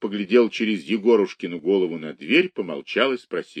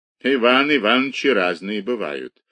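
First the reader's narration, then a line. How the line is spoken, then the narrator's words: Sighing shopkeeper. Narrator (Russian): вздохнул лавочник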